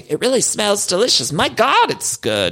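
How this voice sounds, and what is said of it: Weak impression of Dorit Kemsley. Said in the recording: “my Dorit impression. I'm not sure what it's turned into. It's not great. Not great.”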